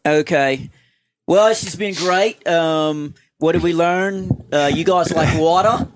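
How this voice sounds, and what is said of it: Put-on Australian accent. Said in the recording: “in your Australian accent”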